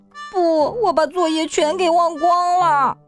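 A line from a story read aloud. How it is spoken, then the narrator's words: Tearful, near crying. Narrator (Chinese): 安迪带着哭腔说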